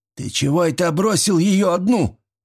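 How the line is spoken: Stern shout. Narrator (Russian): сурово закричал мужичок

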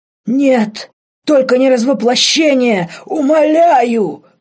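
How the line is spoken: Demon rasping. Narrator (Russian): хрипел демон

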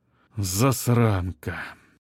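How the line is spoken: Repeated aloud. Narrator (Russian): вслух повторил Чадов

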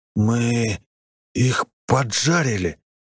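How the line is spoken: Hoarse. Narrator (Russian): прохрипел я

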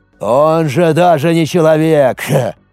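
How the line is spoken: Scornful snort. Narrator (Russian): пренебрежительно хмыкнул Ата

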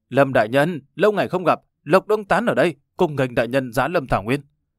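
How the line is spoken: Stiff, accented shout. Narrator (Vietnamese): Hắn dùng tiếng đại hoa với ngữ điệu cứng ngắc hét lên

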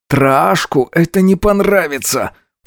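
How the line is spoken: Strained through pain. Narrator (Russian): процедил сквозь зажатый от боли рот

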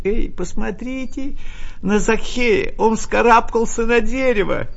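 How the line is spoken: Mocking, laughing voices. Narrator (Russian): весело смеялись

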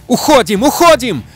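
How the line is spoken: Shout. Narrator (Russian): закричал Джейк

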